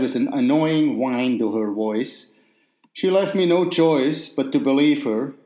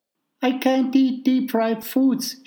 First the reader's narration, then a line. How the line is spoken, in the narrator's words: she whined